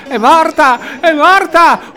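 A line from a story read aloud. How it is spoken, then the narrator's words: Screaming. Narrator (Italian): urlava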